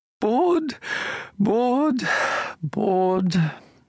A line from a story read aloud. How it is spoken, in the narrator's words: she sighed